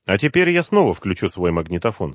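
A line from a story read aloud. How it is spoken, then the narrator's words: Plain. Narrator (Russian): сказал Бергман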